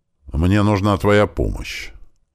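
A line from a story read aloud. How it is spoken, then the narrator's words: Firm, after heavy sigh. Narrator (Russian): тяжело вздохнув, твердо сказала мама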